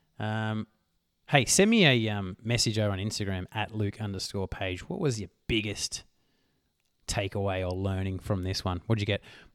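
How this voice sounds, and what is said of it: Hoarse, strained, nearly lost voice. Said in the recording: “My voice is gone. I've lost my voice,”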